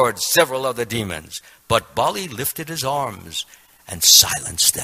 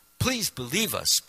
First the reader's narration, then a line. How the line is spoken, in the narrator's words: pleaded Indra